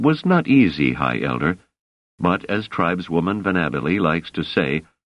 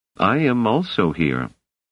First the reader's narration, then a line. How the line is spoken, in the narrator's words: said Hammond calmly